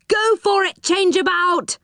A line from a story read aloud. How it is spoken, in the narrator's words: yelled Moonface